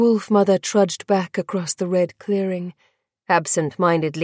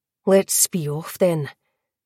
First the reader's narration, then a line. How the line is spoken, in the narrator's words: the wolf mother grunted